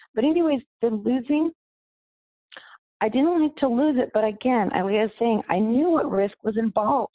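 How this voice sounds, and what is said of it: Worn, strained voice. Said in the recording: “apologize for my voice right now, just because we're playing volleyball or screaming and yelling”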